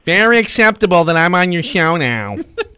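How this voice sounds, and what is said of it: Imitates another person's voice. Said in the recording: “What a terrible impression.”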